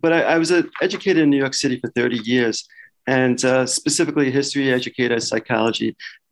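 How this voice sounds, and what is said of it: Slight Brooklyn accent. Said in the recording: “it's a little bit of a Brooklyn accent, just a bit.”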